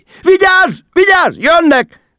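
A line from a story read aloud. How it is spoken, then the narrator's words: Panicked shriek. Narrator (Hungarian): visított Margó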